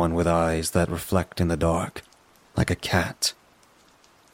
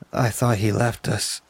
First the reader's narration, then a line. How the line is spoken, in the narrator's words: he sighed